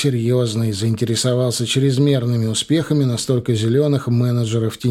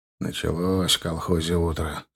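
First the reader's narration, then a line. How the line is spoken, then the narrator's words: Grumbling. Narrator (Russian): проворчал он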